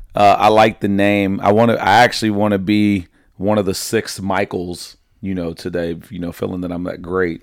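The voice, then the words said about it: Slightly raspy voice. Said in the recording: “raspy this morning ... The voice is a little raspy”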